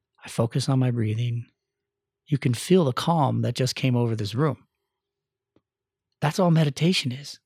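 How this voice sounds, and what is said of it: Lowered, calm, quiet voice. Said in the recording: “you can feel the energy drop when I lower my voice.”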